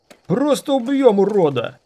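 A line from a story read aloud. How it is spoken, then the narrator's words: Guard yelling. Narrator (Russian): заорал другой гвардеец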